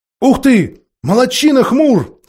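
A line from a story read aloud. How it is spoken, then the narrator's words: Two voices shouting. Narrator (Russian): закричали Юстас и Джилл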